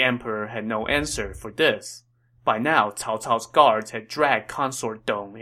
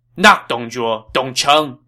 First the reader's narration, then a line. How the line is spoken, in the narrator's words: Cao Cao shouted